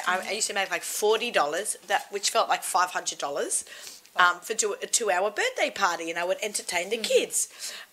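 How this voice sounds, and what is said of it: Hoarse voice. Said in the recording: “I'm getting more and more hoarse.”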